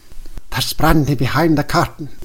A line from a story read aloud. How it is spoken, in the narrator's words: whispered the director